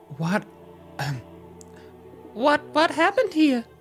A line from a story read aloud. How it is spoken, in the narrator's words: She squeaked